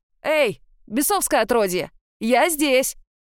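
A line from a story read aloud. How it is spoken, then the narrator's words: Loud distracting shout. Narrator (Russian): выкрикнул Агюстен, чтобы отвлечь от меня демона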